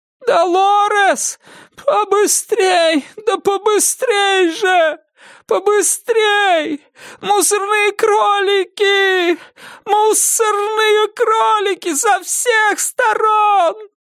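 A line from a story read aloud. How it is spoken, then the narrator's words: Shrieking. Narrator (Russian): визжать стала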